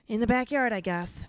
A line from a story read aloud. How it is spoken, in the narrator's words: Taylor sighed to himself